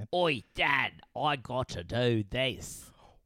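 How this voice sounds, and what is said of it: Mock bad Australian accent. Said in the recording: “Horrible Australian accents”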